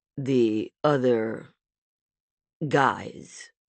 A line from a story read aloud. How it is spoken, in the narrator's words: Rami repeated slowly